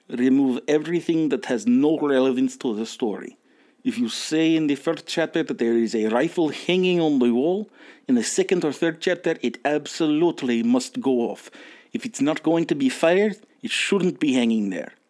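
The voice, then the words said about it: Bad put-on Russian accent. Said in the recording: “Forgive the bad attempt at a Russian accent.”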